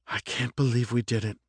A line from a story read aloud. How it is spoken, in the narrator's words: Monet whispered